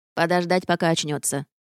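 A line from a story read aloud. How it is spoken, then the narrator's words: Confident tone. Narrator (Russian): уверенным тоном заявил горгул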